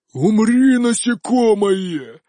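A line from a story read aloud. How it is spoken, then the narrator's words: Furious roar. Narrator (Russian): взревел мой элементаль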